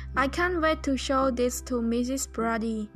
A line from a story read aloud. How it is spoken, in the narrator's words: Tay said